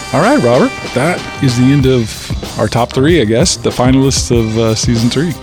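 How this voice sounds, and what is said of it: Good radio announcer voice. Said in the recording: “you get into this radio announcer voice ... you go into the radio announcer voice, which is actually a good radio announcer voice”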